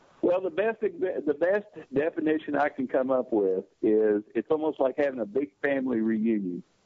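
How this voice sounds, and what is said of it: Slight southern accent. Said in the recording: “as you can tell by my voice, I have a little bit of a southern accent”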